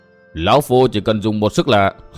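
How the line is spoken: Smiling, malicious. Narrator (Vietnamese): Hồng Sắt mỉm cười chứa đầy ác độc nói

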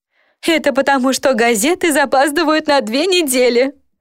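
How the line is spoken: Good-natured chuckle. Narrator (Russian): добродушно хохотнула она

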